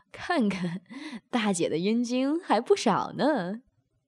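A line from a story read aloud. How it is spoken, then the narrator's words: Laughing. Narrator (Chinese): 任飞笑道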